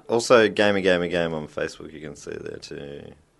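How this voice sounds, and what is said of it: Vocal fry, NPR-style delivery. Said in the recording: “Oh, I did a vocal fry. Are we on NPR all of a sudden?”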